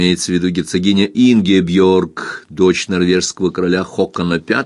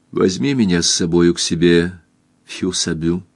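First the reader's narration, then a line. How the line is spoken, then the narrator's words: Quiet. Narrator (Russian): тихо сказала Кристин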